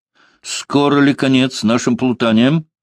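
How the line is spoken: Angry, uneasy question. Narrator (Russian): сердито спросил Фома, чувствовавший себя в этих закоулках хуже, чем в лесу

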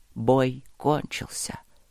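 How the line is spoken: Quiet. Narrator (Russian): тихо сказал отец Олег

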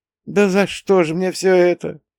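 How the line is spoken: Moaning, sobbing loudly into pillow. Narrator (Russian): Простонала, лицом в подушку, зарыдав полный голос

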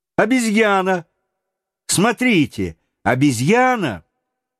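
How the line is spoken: Exclamation. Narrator (Russian): вдруг Роберт воскликнул

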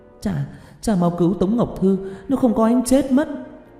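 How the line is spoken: Urgent cry. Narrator (Vietnamese): Tiểu Lan vội kêu lên

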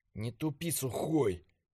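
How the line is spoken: Whispered. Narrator (Russian): шептал я

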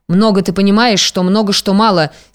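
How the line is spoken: Angry snort. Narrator (Russian): сердито фыркнула Матрёна

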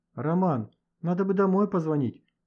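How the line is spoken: Timid start. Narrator (Russian): робко начал Леха

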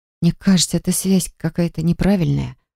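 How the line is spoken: Muttering. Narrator (Russian): пробормотала

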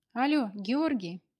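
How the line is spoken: Breathless joyful shout, phone. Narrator (Russian): Радостно задыхаясь, прокричала она в трубку

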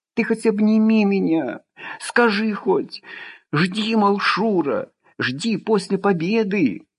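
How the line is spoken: Sudden sob. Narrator (Russian): И вдруг всхлипнула

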